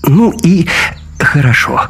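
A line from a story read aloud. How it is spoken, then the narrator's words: Relieved sigh. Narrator (Russian): с облегчением вздохнул комендант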